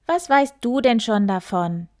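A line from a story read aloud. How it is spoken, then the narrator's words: Hare calling out. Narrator (German): rief der Hase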